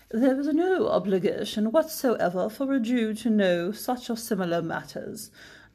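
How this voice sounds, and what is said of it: Put-on pompous British accent. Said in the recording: “I would have wanted to read this in a German accent, but sadly I have not perfected that accent yet. So I'm just going to read it in a pompous British accent.”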